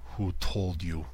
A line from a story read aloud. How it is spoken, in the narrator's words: he growled